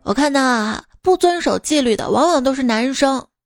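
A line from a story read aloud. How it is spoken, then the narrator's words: Teacher, sighing remark. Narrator (Chinese): 老师感叹道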